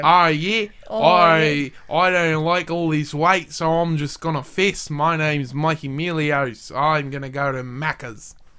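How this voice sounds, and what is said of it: Semi-drunken Australian accent impression. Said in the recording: “my Australian accent ... a spot-on impression of him and his particular semi-drunken accent”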